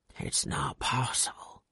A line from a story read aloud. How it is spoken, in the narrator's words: he whispered